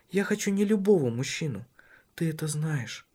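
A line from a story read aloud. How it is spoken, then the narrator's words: Whispering in ear. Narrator (Russian): шептала на ухо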